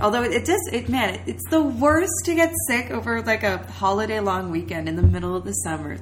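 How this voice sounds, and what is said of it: Congested, stuffed-up voice. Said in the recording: “we're a little sick, so I'm pretty stuffed up”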